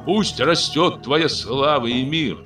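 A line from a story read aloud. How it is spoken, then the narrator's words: Timid, uncertain shouts. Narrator (Russian): несколько неуверенных, робких голосов попытались выкрикнуть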